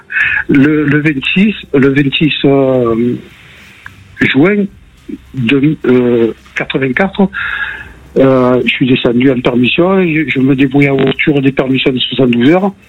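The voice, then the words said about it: Marseille French accent. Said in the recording (French): “on avait entendu à l'accent”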